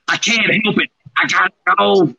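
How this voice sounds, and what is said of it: Imitates another person's voice. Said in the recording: “my first Heath impression”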